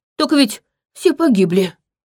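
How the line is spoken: Suddenly hoarse voice. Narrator (Russian): враз осипшим голосом произнес Витал

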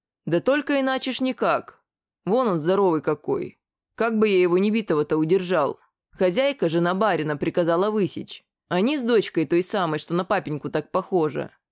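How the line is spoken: Laughing man. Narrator (Russian): мужик снова захохотал

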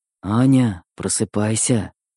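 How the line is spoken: Whisper. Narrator (Russian): шептал Костя

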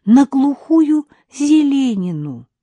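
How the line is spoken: Timid. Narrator (Russian): робко сообщила я, ожидая, что он откажется ехать в такой непопулярный район

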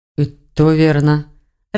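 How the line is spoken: Confused mutter. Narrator (Russian): растерянно пробормотал Броган

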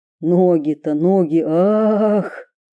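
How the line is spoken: Inner groan. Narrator (Russian): застонало в голове у Василисы

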